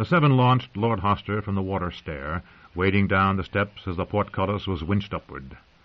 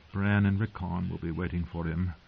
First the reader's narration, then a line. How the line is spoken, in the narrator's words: Caitlin thought sadly